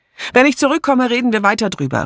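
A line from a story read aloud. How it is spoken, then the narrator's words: Calling out. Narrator (German): rief sie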